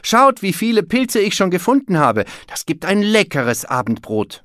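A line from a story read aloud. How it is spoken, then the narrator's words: Calling out. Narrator (German): rief Berti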